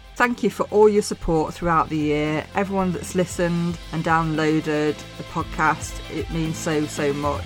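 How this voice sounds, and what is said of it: Mansfield English accent. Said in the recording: “my Mansfield accent”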